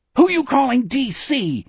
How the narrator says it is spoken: he screamed

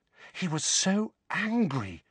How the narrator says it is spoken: said Hermione, in an almost awestruck voice

